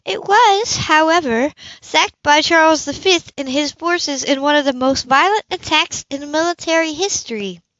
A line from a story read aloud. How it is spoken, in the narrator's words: Jocelyn said with a sigh